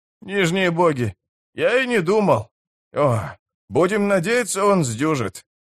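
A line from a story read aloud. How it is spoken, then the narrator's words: Hoarse rasp. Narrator (Russian): прохрипел даруджиец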